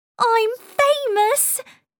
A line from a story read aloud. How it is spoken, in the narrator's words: she cried